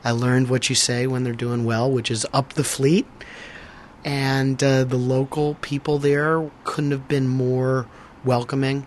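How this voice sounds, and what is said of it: Strained, worn voice. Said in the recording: “as you might be able to hear from my voice, I was hooting and hollering”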